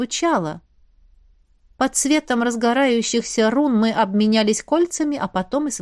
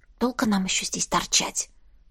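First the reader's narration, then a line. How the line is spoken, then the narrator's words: Whisper in ear. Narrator (Russian): шепнула на ухо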